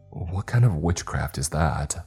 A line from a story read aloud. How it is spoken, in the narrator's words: Rob muttered off camera